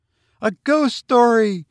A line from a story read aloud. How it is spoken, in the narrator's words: cried